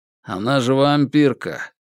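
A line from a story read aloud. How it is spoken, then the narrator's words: Grumble. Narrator (Russian): буркнул второй марит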